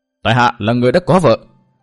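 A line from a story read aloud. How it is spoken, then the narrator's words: Raised voice. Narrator (Vietnamese): Tư Mã Minh cao giọng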